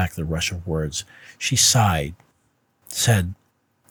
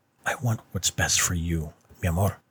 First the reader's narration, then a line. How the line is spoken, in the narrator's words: she murmured, her voice hollow